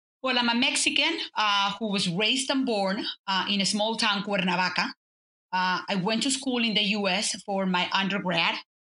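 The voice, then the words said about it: Mexican accent. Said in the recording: “as you can tell, I have not lost my accent nor my Mexican heart”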